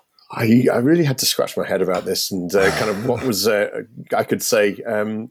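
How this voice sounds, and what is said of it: British accent. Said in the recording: “I obviously from Britain, and you can tell that from my accent”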